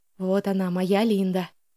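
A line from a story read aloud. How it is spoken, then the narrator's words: Whisper. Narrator (Russian): прошептал Алекс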